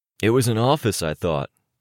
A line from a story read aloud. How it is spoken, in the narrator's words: Durbin said